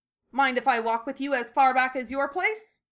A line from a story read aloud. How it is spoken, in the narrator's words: Lee added brightly